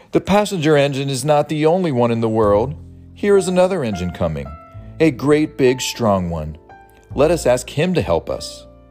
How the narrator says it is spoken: Then the little clown called out

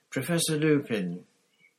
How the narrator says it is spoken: said Hermione timidly

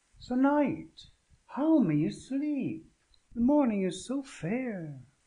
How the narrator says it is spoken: called to him gaily

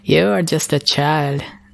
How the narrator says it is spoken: the dragon chuckled

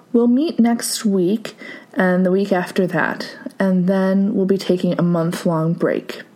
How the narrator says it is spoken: she said

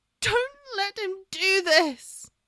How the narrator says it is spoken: She yelped

